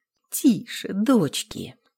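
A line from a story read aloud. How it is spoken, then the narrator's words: Gently hushing. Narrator (Russian): Ласково пресекла их разговор Еремеевна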